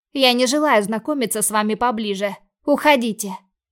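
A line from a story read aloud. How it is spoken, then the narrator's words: Loud growl. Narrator (Russian): Рыкнула так, что, наверное, весь офис услышал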